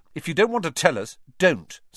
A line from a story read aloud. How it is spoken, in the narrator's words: snapped Ron